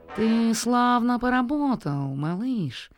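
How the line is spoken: Nasal singsong. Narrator (Russian): пропел он гнусаво

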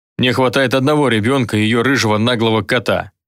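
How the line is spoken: Grumbling. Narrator (Russian): проворчал колдун

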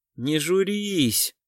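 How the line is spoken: Muttered. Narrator (Russian): пробормотал Кричко

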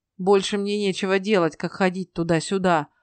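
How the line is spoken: Grumbled. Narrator (Russian): проворчал Гидвон

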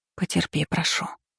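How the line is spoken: Whisper. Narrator (Russian): прошептала

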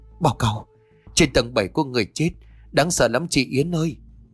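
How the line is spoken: Trembling, frightened voice. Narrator (Vietnamese): Vân run giọng bảo

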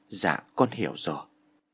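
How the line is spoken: Gentle, soft. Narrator (Vietnamese): Nó nghe thầy nói, nó nhẹ nhàng

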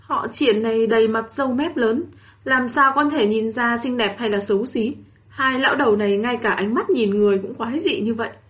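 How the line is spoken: Muttering. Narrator (Vietnamese): Tiểu Giật lẩm bẩm trong miệng

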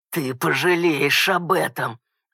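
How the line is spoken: Snarling growl. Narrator (Russian): оскалившись, прорычал

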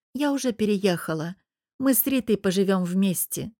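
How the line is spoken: Dry. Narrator (Russian): сообщаю сухо

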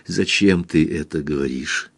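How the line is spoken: Whisper. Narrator (Russian): прошептала она немного спустя

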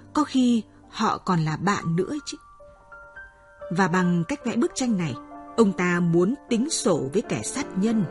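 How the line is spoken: Plain. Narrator (Vietnamese): Seja nói

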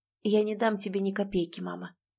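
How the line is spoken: Quiet, final, cold, cruel. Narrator (Russian): произнесла Лена тихо и окончательно, и в ее голосе теперь не осталось ничего, кроме холода и жестокости

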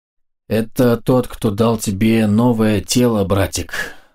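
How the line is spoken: Cooing. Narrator (Russian): проворковала Биота

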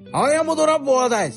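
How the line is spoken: Shouting. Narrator (Russian): кричал Ревел

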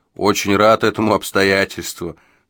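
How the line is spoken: Laughing. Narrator (Russian): засмеялся Джо

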